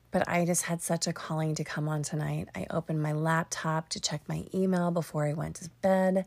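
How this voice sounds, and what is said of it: Raspy, tired voice. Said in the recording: “I am exhausted. My voice is raspy”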